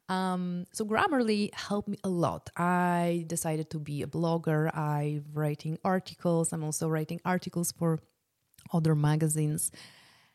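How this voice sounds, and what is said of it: Polish accent in English. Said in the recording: “English is not my first, first language, and you can hear that... this weird accent is actually coming from Poland”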